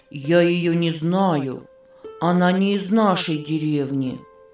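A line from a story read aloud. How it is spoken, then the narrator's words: Sad. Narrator (Russian): печально сказал он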